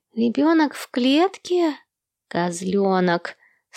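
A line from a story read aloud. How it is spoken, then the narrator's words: Sleepy explanation. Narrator (Russian): сонным голосом объяснил Эрни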